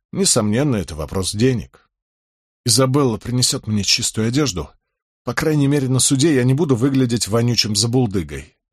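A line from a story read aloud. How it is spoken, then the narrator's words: Sighing. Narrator (Russian): вздохнул Болейн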